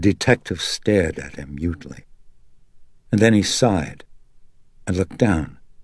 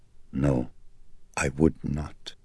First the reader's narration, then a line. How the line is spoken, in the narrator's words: Not for a moment had Carl lost his poise, and he held it even now as he calmly answered